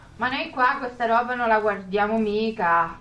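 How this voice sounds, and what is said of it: Strong regional Italian accent. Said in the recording (Italian): “ma lei a Milano parla così? ... ma che accento c'hai?”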